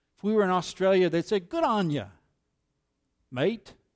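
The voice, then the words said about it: Put-on Australian accent. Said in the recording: “You don't like my Australian accent?”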